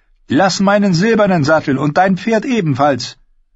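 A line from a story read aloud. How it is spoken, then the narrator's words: Calling out. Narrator (German): rief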